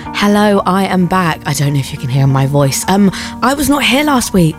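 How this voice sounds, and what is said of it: Rusty voice recovering from voice loss. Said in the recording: “lost my voice. It was completely gone ... do excuse if I sound a bit rusty today”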